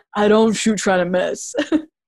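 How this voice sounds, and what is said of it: Imitates another person's voice. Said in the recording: “That was my OG impression. Give it 0 out of 10.”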